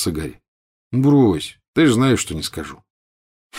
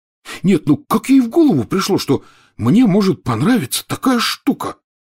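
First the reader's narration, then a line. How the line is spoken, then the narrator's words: Shocked exclamation. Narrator (Russian): потрясенно воскликнул Рон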